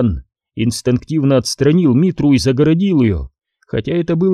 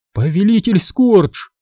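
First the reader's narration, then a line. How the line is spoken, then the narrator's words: Frightened cry, guard. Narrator (Russian): испуганно вскрикнул один из охранников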